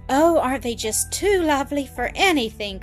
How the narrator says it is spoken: cried Annis

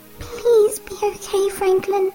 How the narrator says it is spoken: she whimpers

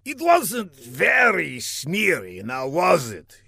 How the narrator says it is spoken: he replied with a sneer

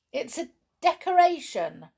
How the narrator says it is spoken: cried

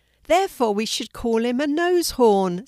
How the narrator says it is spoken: said Jonah, laughing

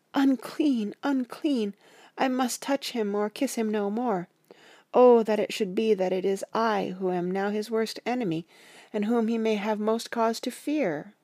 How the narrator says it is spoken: with a low wail, and whispered amidst choking sobs

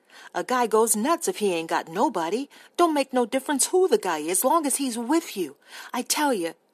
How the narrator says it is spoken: he cried

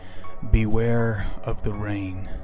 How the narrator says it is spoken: he whispered

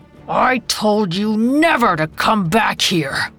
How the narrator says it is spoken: The tiger shark's head was still swaying from the dizziness, but he was able to grunt

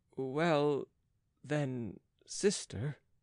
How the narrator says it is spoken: said in a low voice

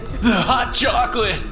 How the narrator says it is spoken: Bill was yelling now

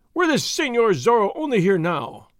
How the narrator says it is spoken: one of them cried

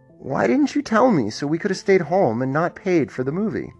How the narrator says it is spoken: sighed and asked

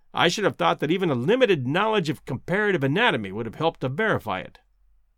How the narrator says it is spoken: said Summerlee, bitterly

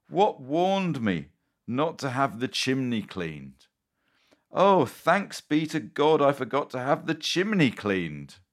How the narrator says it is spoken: cried

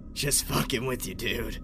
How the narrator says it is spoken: Murphy laughed in his raspy voice and said

